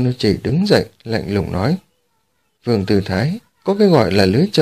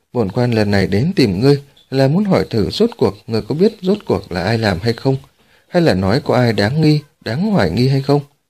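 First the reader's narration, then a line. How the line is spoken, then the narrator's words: Smiling. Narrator (Vietnamese): Dương Nô Chỉ mỉm cười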